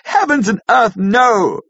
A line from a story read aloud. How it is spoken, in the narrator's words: cried Arthur, in a storm of passion